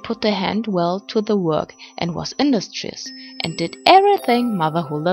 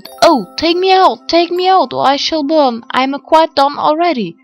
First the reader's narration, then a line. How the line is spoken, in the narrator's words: the bread cried out